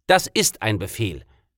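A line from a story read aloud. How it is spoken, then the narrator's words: Barked military command. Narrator (German): bellte ich wie ein preußischer Feldwebel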